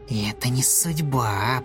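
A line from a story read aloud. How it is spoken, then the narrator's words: Snake hissing. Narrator (Russian): прошипела змея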